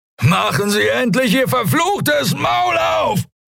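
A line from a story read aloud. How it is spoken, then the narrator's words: Shouted. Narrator (German): schrie er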